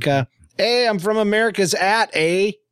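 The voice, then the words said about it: Put-on Canadian accent. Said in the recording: “That's my Canadian accent.”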